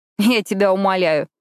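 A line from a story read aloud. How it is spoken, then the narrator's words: Snorting, dismissive. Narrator (Russian): фыркнула я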